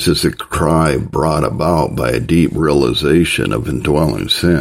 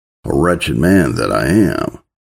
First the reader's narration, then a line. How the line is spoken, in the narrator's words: a believer to exclaim